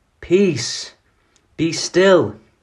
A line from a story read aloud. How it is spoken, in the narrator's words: he shouted into the raging, blinding blackness of the storm